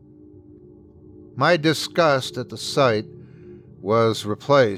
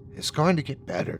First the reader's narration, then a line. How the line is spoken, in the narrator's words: promised with a whisper